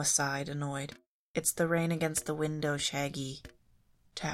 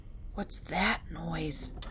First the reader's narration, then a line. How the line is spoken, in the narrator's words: asked, his voice an urgent whisper